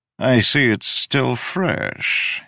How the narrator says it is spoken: he purred

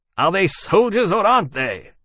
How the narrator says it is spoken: Wellesley snapped

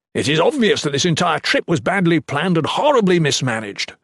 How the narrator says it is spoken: Shatan spat

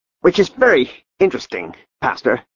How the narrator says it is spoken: said Klaus in a high, tight voice

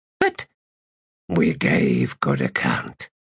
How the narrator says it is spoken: Gruntle resumed

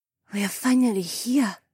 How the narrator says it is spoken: Heiwan whispered

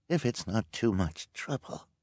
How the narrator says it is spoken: said in a weak voice

